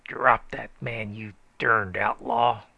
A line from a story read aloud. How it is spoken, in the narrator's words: roared the stranger